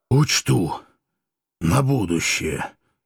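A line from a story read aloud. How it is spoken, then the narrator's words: Strained wheeze. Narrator (Russian): с трудом прохрипел я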